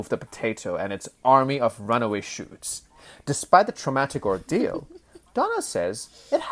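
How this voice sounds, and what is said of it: Usual voice. Nothing is said of it.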